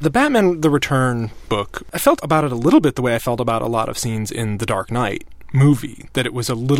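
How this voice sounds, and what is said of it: Usual voice. Nothing is said of it.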